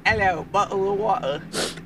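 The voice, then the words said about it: Attempted British accent, unconvincing. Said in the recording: “Say it in the accent. ... I don't really know if that was a British accent ... Just noise”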